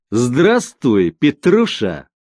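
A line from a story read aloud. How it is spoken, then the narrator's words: Loud. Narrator (Russian): громко сказал он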